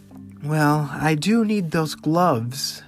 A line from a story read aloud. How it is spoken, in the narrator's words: Horace sighed